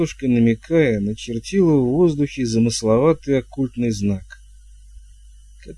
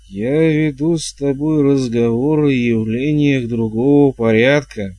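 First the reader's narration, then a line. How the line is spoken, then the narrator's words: Gloomy. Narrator (Russian): мрачно проговорила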